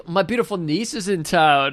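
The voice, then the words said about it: Put-on fake French-style accent. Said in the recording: “I don't know what these accents are ... Your accent is just as good as his because he was not French.”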